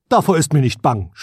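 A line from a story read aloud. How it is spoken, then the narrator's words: Prince speaking loudly. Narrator (German): sprach der Prinz laut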